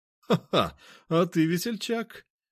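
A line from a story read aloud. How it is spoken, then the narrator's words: Merry laughter. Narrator (Russian): он весело рассмеялся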